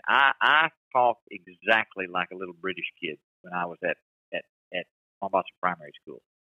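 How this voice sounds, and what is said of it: Strong Tennessee accent. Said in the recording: “you still have that Tennessee accent ... I do have a strong Tennessee accent”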